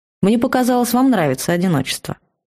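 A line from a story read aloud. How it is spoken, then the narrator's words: Calm. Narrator (Russian): спокойно ответил страж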